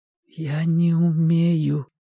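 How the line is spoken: Whisper. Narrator (Russian): прошептал Костя

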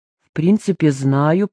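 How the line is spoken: Muttered. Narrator (Russian): пробормотал Сергей

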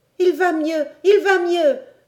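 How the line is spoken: Excited exclamation. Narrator (French): s'écria Robert en courant

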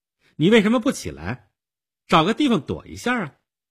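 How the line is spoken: Stern young woman asking. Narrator (Chinese): 少女厉声地问道

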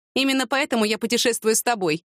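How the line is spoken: Wry snort. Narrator (Russian): хмыкнула она

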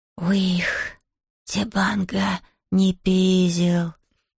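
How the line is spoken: Hoarse whisper. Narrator (Russian): хрипло прошептал кто-то рядом с Зией

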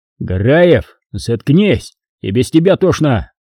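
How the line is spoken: Company commander's shout. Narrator (Russian): крикнул ротный на Хасана

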